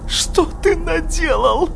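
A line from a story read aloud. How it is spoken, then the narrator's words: Mother shouting. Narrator (Russian): закричала мать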